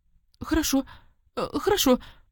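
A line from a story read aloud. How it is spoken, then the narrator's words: Terrified servant's squeak. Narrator (Russian): в ужасе запищал чем-то перепуганный слуга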